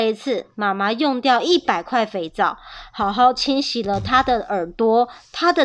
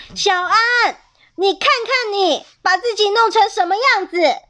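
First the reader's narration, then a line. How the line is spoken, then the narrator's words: Angry mother yelling. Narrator (Chinese): 妈妈看见小安那副脏兮兮的模样，气得对他大叫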